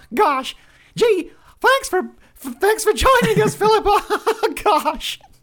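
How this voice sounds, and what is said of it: Mickey Mouse cartoon voice, strained. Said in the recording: “my voice is a bit sore ... So it's quite hard to do ... Mickey”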